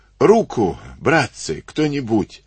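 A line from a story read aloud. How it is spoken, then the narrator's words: Hoarse rasp. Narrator (Russian): выхрипел он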